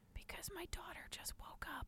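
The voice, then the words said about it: Whispering quietly. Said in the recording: “Why are we whispering?”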